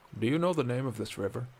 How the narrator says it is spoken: asked Bracknell

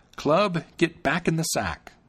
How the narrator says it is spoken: Then he cried out

